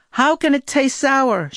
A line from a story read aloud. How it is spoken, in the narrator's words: she yelled